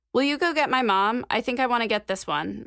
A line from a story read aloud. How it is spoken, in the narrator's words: Mac said